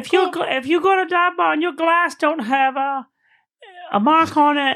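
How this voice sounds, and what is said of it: Put-on accent. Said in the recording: “I don't know where that accent came from.”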